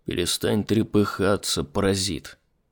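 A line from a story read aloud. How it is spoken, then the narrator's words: Muttering. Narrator (Russian): пробормотал он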